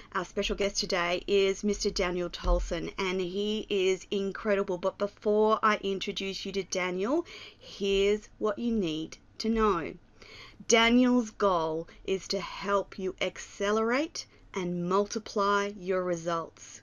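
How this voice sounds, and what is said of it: Excited voice. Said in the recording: “I'm excited, as you might hear it in my voice.”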